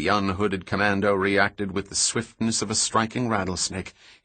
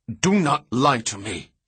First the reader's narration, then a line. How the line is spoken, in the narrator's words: he snapped